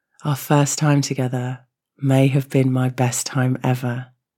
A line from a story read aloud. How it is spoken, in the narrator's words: she sighed contentedly